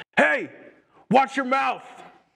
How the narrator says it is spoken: Older brother, from across the gym, yells at his brother

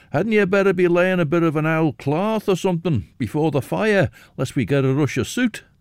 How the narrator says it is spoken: Jonah could be heard shouting above the din

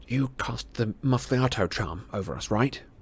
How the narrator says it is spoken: he whispered to Hermione

